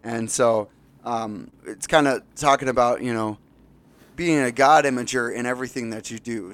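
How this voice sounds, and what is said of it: Slightly hoarse voice. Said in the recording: “Sorry about my voice too. It's singing all weekend. So a little hoarse”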